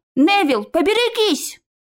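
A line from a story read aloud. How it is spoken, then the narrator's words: Shouted. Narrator (Russian): крикнул Наев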